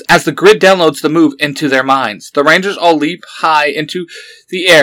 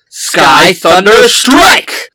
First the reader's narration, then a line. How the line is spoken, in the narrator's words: They shout